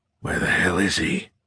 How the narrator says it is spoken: Horn muttered

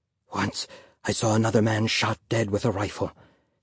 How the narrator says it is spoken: his father whispered

